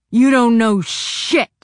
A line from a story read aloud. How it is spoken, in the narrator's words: he snarled